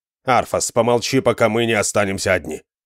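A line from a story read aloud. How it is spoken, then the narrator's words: Sharp interruption. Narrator (Russian): Резко оборвал его Реза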